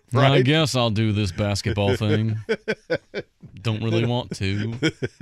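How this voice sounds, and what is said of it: Put-on Southern accent. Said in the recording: “That sounded more Southern.”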